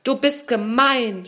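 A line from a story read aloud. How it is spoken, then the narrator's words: Small caterpillar shouting. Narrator (German): schrie die kleine Raupe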